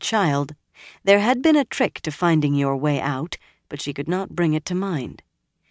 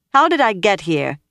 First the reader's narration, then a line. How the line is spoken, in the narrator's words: she demanded loudly